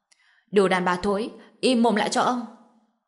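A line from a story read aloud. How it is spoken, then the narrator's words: Coarse man's cold shout. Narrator (Vietnamese): tên Hồ Mãnh cao to thô lỗ lạnh lùng hét to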